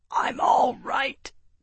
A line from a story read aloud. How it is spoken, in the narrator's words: Tavi choked out